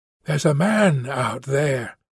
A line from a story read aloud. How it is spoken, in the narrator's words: Cleveland whispered, even though the man surely couldn't hear them